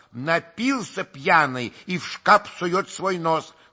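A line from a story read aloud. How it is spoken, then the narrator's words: Angry shout. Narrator (Russian): крикнул Дашенька, сердито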